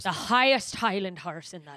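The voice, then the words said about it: Put-on accent that sounds Irish. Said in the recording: “that sounded Irish.”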